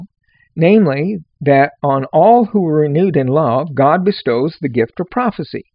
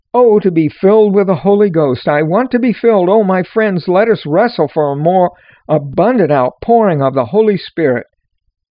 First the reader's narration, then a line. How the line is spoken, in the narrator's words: After singing a hymn, he cried